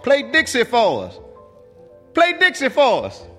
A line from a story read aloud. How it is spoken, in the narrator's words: some white boys from a fraternity yelled forward to the stage … began to shout